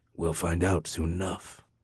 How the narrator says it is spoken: Garothan said grimly

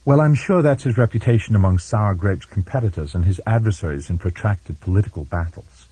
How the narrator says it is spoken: Kirsten said more sharply than she'd intended

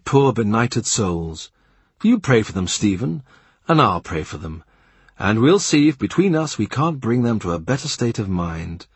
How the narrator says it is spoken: He will say earnestly

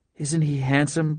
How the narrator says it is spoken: Blair whispered to her mother

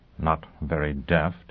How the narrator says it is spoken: he murmured

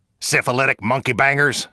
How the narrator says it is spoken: SecDef grumbled

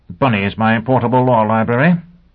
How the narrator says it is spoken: Sheffield grunted

